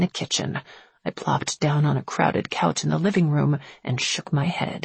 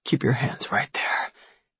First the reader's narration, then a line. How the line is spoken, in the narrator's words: he whispered